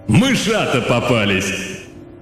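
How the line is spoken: Thundering voice overhead. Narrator (Russian): над самой головой прогремело

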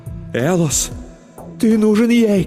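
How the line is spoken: Shouting. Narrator (Russian): кричала моя любовь

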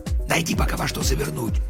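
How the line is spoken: Whisper. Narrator (Russian): прошептал он

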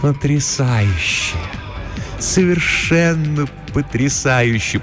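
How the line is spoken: Deep purring in ear. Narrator (Russian): промурлыкала она ему в ухо, и глубокий тембр ее голоса показался ему вполне достойным наследницы Висконти

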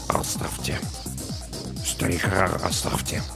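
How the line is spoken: Mutter. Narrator (Russian): Саакас пробормотал

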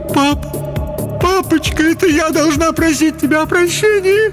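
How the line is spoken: Sobbing. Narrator (Russian): зарыдала Хелен

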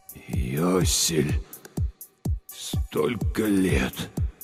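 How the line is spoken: Breathy exhale. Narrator (Russian): выдохнул он

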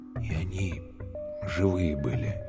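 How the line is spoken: Quiet. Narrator (Russian): тихо сказал Калюня

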